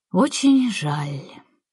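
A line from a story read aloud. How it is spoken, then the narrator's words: Sigh. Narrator (Russian): вздохнул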